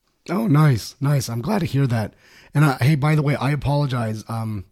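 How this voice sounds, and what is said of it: Hoarse, raspy voice. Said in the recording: “My voice is really hoarse. ... I normally don't sound this way ... my voice isn't quite as raspy as yours”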